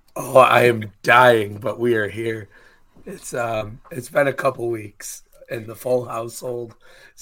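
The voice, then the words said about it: Raspy, hoarse, low subdued voice. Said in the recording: “pardon my voice ... It's like straight up emphysema over there ... I'm used to having this loud, like, booming voice, and here I am all raspy and, like, toned down and low.”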